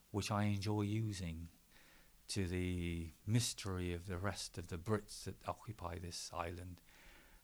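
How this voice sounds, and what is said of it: Strong Gloucestershire English accent. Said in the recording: “I do this in my voice because I have a very good, very strong Gloucester accent”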